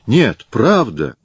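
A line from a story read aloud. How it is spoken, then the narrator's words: Sincere exclamation. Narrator (Russian): искренне воскликнул Виктор Андреевич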